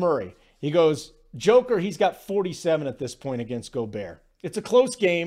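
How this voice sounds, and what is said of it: Usual voice. Nothing is said of it.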